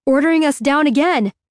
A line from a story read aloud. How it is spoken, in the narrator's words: Bob yells